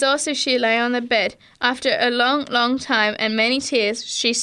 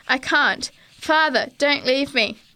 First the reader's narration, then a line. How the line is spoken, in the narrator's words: Ellen cried